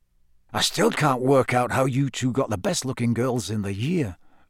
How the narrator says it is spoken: muttered Dean

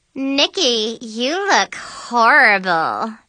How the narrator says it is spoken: Mackenzie said, sneering

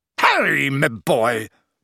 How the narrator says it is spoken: boomed Slughorn

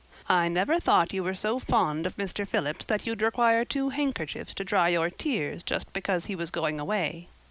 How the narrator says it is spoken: said Marilla

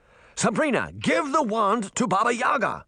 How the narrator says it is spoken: Uncle Jake shouted

